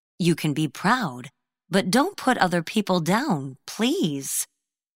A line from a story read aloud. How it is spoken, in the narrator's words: Bobby's mother gently said